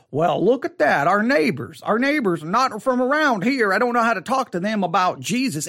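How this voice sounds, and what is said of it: Fake Southern American accent. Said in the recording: “I'm going to use a fake Southern accent.”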